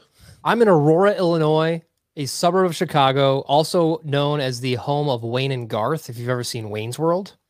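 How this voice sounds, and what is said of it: Non-New Zealand accent. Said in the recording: “Your accent sounds very non-New Zealandish.”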